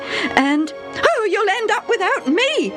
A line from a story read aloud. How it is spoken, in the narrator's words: his mother shrieked